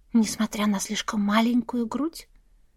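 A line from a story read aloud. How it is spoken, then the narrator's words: Whispered question. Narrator (Russian): зачем-то шепотом спросила я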